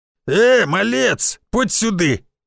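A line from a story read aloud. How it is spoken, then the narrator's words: Blacksmith barking loudly. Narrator (Russian): гаркнул кузнец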